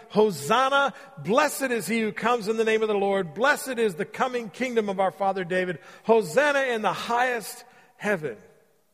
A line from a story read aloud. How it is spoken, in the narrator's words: the people all around him were shouting